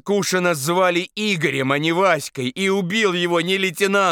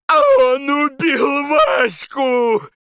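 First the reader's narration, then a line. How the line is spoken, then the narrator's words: Sobbing wail. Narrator (Russian): Рыдающим голосом вопил Таманцев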